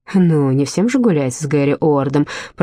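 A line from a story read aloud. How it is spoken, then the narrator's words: Grumble. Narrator (Russian): проворчала Рози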